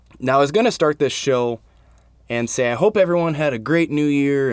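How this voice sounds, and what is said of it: Sick voice, cutting in and out. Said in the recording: “I'm fighting a little bit of a cold... My voice is kind of coming in and out”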